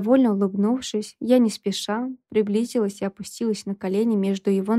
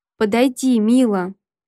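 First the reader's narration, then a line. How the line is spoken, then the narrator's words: Growling man. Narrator (Russian): прорычал муж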